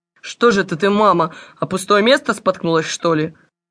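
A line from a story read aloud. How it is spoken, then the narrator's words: Relieved laugh. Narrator (Russian): Облегченно рассмеялся Волькин отец, довольный, что бабушка нисколько не пострадала при падении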